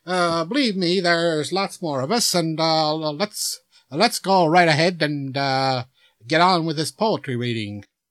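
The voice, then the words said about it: Canadian accent. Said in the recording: “A young man, talking in a Canadian accent.”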